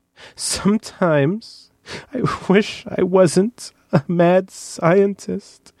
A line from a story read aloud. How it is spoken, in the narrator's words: said between sobs